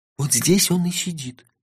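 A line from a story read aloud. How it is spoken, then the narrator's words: Whisper. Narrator (Russian): шепнул Номинорих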